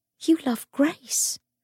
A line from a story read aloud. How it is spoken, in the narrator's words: Cordelia whispered